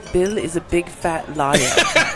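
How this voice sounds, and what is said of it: Put-on British accent. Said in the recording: “Give us a taste of the British accent in the Movie Magic show.”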